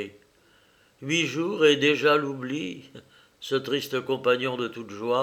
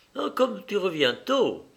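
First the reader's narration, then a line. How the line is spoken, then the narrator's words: Said curtly. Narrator (French): fit-elle sèchement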